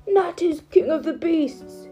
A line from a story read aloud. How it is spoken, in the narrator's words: he cried